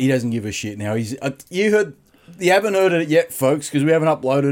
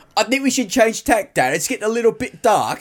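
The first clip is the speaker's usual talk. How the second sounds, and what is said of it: Put-on Cockney accent, fairly good. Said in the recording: “it was more like this in his Cockney accent ... That's a good accent. ... it's not bad, is it? ... It's a good accent.”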